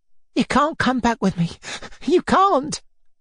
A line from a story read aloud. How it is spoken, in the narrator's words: cried, even more panic-stricken